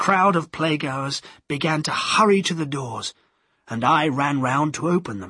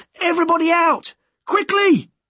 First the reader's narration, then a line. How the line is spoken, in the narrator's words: Henry Condell shouted